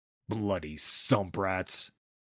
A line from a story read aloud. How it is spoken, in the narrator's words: snapped Kembreth, still nursing a bleeding nose